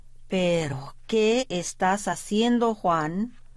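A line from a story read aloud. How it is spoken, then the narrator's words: Plain. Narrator (Spanish): le preguntó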